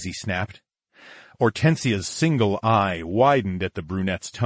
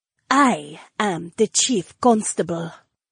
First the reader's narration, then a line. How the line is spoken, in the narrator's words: Hortensia breathed